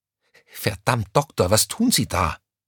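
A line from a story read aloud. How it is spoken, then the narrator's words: Panicked hiss. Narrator (German): zischte Crescentia Rausch ihm panisch hinterher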